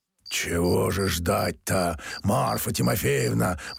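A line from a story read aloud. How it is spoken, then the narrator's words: Hoarse male bass objecting. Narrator (Russian): возражал мужской хриповатый басок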